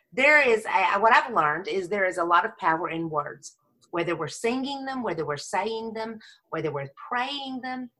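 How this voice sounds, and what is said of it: Texan accent. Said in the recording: “She's from Texas... I know how the Texans talk... with this accent... Texas raised”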